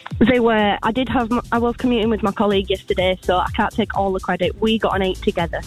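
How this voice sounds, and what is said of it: Leeds English accent, not Scottish. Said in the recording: “you're not from Helensburgh with an accent like that ... I'm from Leeds originally.”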